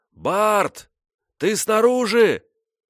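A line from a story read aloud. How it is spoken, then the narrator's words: Yelling. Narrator (Russian): Я заорал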